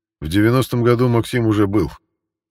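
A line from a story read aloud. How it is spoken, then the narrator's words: Skeptical grunt. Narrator (Russian): хмыкнул Константин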